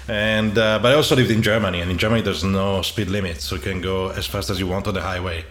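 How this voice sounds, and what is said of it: Italian accent. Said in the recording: “I'm originally from Italy. You may have discovered or from my accent.”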